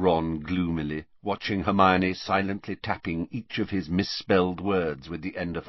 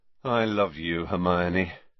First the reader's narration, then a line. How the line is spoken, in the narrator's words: said Ron, rubbing his eyes wearily